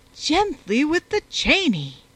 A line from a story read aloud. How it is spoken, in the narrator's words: exclaimed Lady Scattercash, who was too much used to such scenes to care about the belligerents